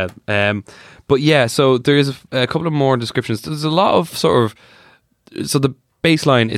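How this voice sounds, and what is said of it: Usual voice. Nothing is said of it.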